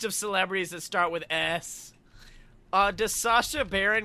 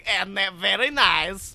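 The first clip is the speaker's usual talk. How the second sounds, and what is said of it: Imitates Borat character voice. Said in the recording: “doing a Borat impression”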